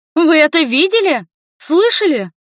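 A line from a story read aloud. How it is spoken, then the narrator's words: Yelling. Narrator (Russian): Завопила я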